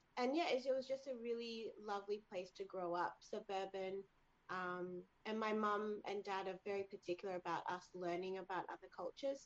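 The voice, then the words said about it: Australian accent, quite fast. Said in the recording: “I'd say Aussie ... Australians tend to speak quite quickly, I think, or our accent is perceived as quite fast”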